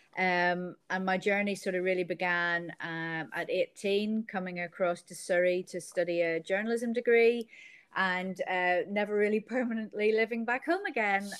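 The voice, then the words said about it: Northern Irish accent. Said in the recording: “as you can probably tell from the accent ... i originate from county down in northern ireland”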